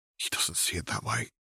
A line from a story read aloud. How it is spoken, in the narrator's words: Druella murmured sadly